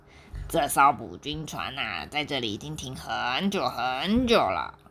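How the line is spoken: Softly. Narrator (Chinese): 皮皮轻声的对飞普说

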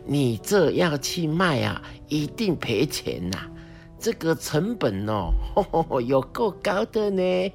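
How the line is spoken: Laughing. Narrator (Chinese): 阿妈笑起来说

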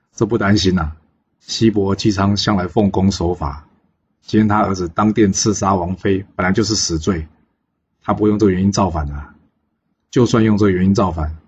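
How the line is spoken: Laughing. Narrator (Chinese): 纣王笑着说

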